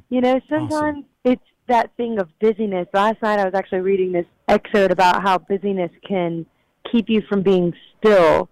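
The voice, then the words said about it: Louisiana country accent, raspy voice. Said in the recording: “you got a country accent more than I thought you did ... I'm from Louisiana, so I've got the the soulful, raspy kind of thing”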